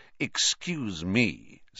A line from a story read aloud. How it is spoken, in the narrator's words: said Snape, icily